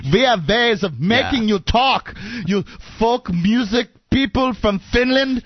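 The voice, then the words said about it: Exaggerated Hollywood German accent. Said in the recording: “one of those sad Hollywood German accents”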